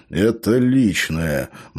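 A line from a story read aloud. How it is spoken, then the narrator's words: Gloomy. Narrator (Russian): мрачно произнес Джонатан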